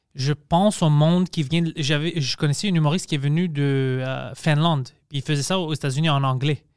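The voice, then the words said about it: Speaks French with an accent. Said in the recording (French): “J'ai un accent, mais je parle français.”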